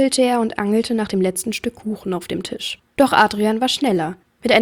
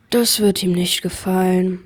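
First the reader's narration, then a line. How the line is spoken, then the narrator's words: Tearful sigh. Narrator (German): seufzte Barnaby und blickte mit feuchten Augen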